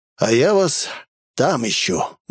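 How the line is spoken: Breathed out. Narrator (Russian): выдохнул он

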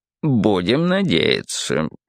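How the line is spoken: Muttering. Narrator (Russian): пробормотал цирюльник

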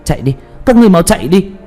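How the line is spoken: Loud urgent shout. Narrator (Vietnamese): Tuyết Kỳ hét lớn

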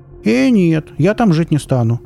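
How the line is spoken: Quick exclamation. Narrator (Russian): тут же воскликнула Оля

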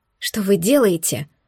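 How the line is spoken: Quiet question. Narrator (Russian): я тихо уточнила

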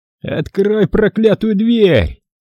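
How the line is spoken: Yelling man. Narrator (Russian): заорал человек с рацией

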